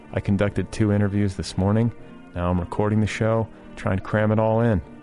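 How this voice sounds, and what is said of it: Tired, fatigued voice. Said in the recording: “You can hear the fatigue in my voice, can you not?”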